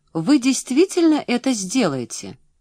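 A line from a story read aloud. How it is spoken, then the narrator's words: Almost joyful question. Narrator (Russian): Почти радостно переспросила Пам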